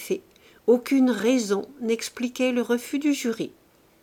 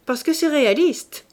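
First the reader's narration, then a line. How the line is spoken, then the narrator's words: Sharp, cutting voice. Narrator (French): dit, d'une voix si tranchante qu'on ne pouvait savoir s'il blaguait le jury ou le tableau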